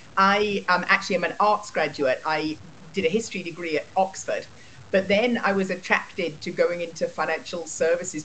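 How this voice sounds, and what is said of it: English accent. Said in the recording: “as you can hear from my voice, I grew up in England”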